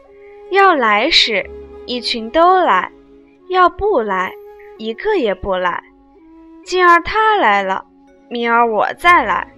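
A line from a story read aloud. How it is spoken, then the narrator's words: Laughing. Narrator (Chinese): 黛玉笑道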